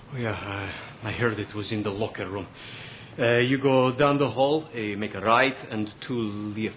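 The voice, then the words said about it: Put-on Russian accent. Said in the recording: “I find your accent quite funny ... From Russia ... You need to work on your accent.”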